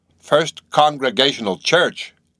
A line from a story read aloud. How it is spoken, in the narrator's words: cried Bildad